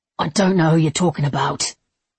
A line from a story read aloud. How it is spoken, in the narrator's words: he grunted